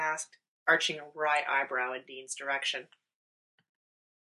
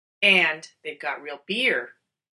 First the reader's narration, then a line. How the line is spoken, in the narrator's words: Dean said triumphantly